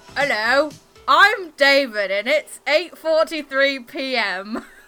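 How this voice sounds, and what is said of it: Poor imitation of another person's accent. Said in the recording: “That's not how he speaks at all ... You can do a better accent ... I can't do a good accent”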